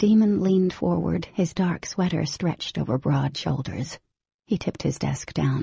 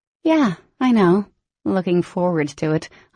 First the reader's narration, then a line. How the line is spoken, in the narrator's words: said dryly